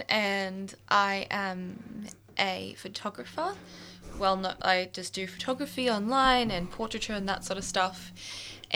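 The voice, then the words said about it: Australian accent. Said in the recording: “that sounded really Aussie”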